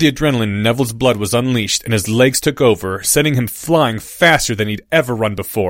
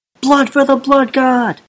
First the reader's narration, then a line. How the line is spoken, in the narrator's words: screamed Neville